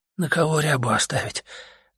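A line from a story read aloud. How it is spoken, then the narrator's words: Sad, weak. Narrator (Russian): грустно и слабо сказал он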